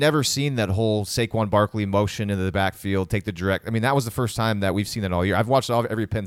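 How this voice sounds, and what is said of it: Usual voice. Nothing is said of it.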